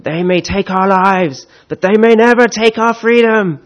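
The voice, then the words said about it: Bad Scottish accent, Mel Gibson impression. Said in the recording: “Apologies for the terrible accent, but that is an Australian doing a Scottish accent in the film. So mine probably isn't quite as bad as his.”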